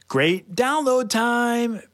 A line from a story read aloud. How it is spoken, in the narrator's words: Paige yelled